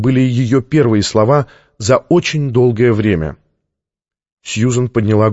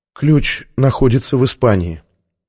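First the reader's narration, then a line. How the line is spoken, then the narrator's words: Barely audible. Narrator (Russian): еле слышно произнесла Сьюзен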